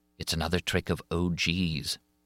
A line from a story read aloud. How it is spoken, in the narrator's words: Suddenly, Gabrielle whispered